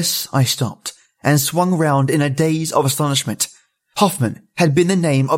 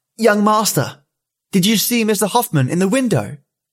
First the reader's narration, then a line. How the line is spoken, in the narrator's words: he called out